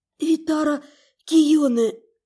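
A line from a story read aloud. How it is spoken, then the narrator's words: Strained rasp, parched throat. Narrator (Russian): с трудом просипела пересохшим горлом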